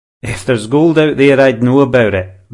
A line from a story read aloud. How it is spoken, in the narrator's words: the beard chuckled